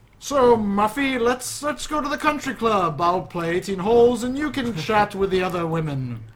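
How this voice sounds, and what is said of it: Exaggerated upper-class WASP accent. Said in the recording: “Can you do an exaggerated WASP accent?... That's good... Nice try... my pathetic attempt”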